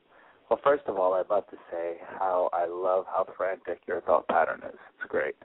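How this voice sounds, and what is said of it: Slightly nasal, sick-sounding voice. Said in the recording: “I'm sorry if I sound a little nasally. I got sick today... from exhaustion and travel, I got sick.”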